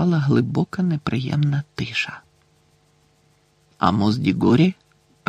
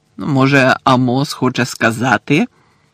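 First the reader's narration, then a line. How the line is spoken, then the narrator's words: Cold, angry, emphatic. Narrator (Ukrainian): Холодно додав містер Кравч, сердито акцентуючи кожне слово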